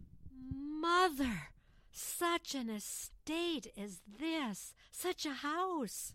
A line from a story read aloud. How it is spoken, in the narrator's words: she gasped